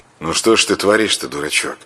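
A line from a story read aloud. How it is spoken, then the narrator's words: Displeased sigh. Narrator (Russian): Волхов недовольно вздохнул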